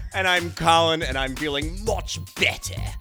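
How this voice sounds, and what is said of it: Put-on British accent. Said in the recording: “I'm feeling my oats, wheats, grains, thins, and porridge on this British accent right now.”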